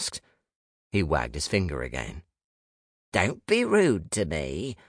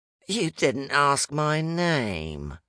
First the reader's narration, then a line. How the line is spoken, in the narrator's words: he said, his features collapsing into a sneer